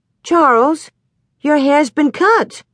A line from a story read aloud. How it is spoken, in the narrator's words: Ma exclaimed